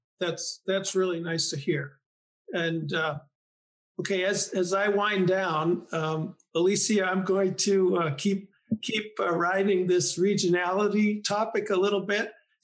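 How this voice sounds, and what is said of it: Boston accent. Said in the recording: “I grew up in the Boston area, so I carry my Boston accent with me proudly.”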